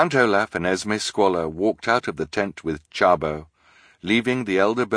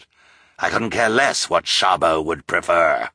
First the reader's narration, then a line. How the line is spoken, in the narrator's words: Olaf snarled